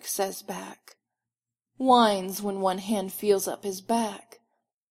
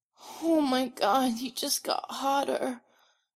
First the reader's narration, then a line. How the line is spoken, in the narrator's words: Styles whimpers